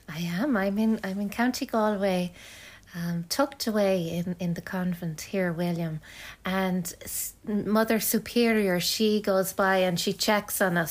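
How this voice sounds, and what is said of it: Irish lilt. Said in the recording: “You have an Irish lilt to you.”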